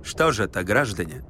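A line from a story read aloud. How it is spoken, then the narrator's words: Official, bureaucratic tone. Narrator (Russian): сказал он казенным голосом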